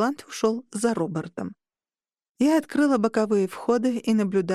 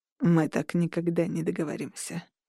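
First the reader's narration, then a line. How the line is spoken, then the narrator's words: Quiet. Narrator (Russian): тихо сказал Орланд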